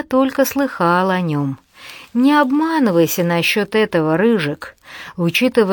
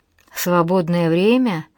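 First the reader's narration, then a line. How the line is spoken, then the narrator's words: Dreamy sigh. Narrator (Russian): мечтательно вздохнул Гарри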